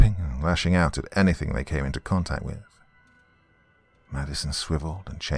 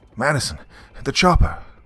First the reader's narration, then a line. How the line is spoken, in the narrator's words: yelled